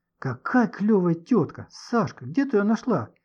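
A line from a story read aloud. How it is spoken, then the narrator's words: Delighted exclamation. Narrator (Russian): В полном восторге воскликнула Маня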